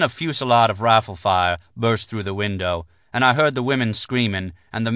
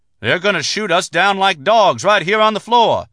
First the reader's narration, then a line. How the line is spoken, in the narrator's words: the mayor shout at my father